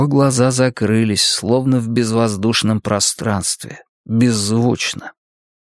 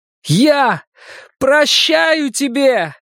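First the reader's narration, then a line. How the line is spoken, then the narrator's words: Shouted. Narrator (Russian): крикнул я страшной маске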